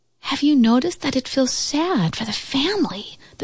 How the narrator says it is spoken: the squirrel whispered to the oak tree

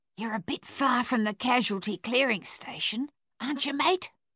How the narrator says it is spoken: an Australian sentry whispered

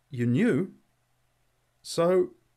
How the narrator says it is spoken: He stammered

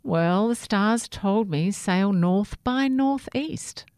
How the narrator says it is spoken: Sammy replied

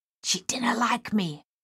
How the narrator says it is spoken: Miss Waits whispered

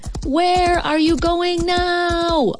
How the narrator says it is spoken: I hollered

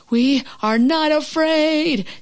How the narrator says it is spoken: screamed Frog and Toad at the same time

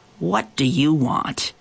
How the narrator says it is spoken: he growled

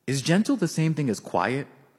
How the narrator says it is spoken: I asked

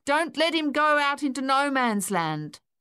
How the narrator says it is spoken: yelled

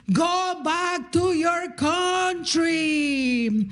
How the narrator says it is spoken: he yells at me

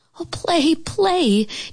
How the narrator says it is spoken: Geraldine begged

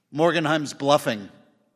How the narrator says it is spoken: said Ebling

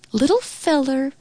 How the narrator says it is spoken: cooed

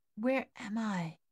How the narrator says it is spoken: murmured

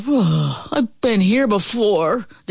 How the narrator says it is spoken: He sighed to himself

